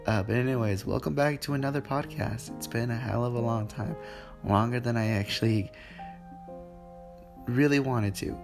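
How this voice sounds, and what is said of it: Sick, weird-sounding voice. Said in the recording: “me sounding like this right now ... I'm currently sick ... my voice may really sound weird”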